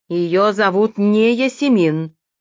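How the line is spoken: Sharp objection. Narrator (Russian): резко возразил Редберн

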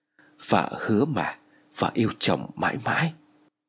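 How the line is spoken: Loving whisper. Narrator (Vietnamese): thì thầm

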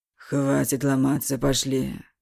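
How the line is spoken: Drunk, angry, fervent whisper. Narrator (Russian): Уже всерьез, пьяный и злой, он горячо зашептал

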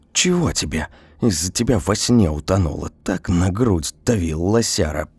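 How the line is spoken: Whisper. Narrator (Russian): прошептала я коту

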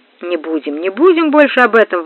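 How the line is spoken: Exclaiming. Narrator (Russian): воскликнул

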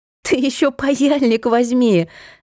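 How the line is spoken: Laughing loudly. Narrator (Russian): захохотала Машка

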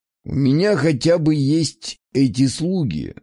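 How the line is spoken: Plain. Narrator (Russian): сказал он

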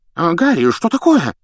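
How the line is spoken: Alarmed exclamation. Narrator (Russian): встревоженно воскликнул Фадж

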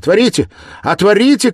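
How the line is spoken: Shouting through a door. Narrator (Russian): кричала она через дверь

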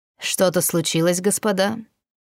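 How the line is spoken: Icy inquiring tone. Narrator (Russian): поинтересовался он таким ледяным тоном

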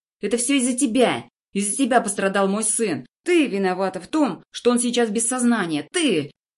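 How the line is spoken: Woman screaming. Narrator (Russian): вопит женщина

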